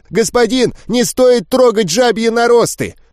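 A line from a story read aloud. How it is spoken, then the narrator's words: Breathless near-shout. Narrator (Russian): Почти выкрикнул запыхавшийся дрог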